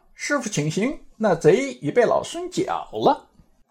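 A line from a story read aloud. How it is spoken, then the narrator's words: Cheerful, smiling. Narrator (Chinese): 笑吟吟道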